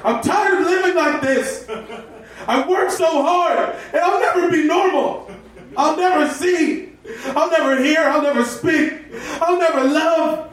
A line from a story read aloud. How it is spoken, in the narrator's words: yelled